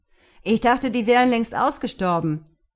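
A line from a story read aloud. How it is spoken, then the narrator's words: Calling out. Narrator (German): rief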